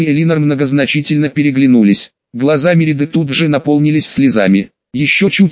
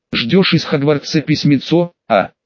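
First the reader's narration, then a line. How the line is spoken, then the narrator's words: Giggling. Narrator (Russian): хихикнул Харрис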